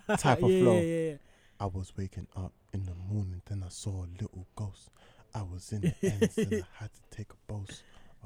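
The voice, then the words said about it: Calm rap flow imitating another rapper. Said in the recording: “that calm flow ... That was a good impression”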